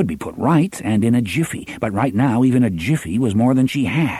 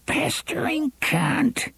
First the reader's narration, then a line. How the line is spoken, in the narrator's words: she whined